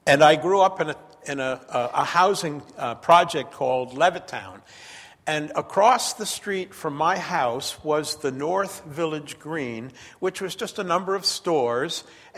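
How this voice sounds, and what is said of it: Long Island accent. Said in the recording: “I grew up on Long Island. That's where I got my accent.”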